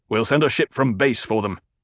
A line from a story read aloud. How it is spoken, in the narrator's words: the Duke snapped